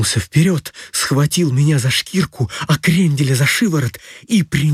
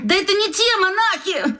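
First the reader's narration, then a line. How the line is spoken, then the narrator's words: Shouting. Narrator (Russian): закричал Крендель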